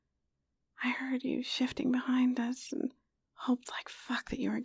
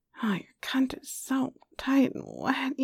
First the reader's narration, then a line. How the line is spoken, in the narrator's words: growled